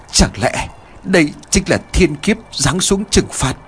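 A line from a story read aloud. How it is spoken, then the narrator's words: Old man's trembling voice. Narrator (Vietnamese): Thầy Lương, miệng của ông run rẩy nói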